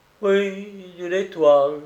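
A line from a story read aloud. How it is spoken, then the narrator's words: Sad repetition. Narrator (French): répétait tristement l'accusé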